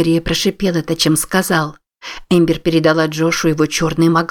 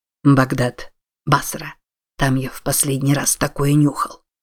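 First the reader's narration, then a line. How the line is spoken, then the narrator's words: Whisper. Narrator (Russian): прошептал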